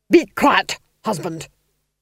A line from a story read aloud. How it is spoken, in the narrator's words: snapped the Duchess